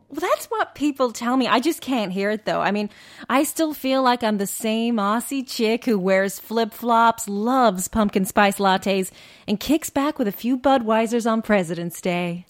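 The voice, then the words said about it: Slight American accent. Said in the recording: “detecting a slight American accent there”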